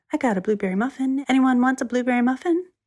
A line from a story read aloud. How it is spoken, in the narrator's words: She said cheerfully